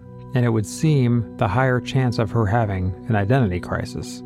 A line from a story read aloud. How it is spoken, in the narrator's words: she said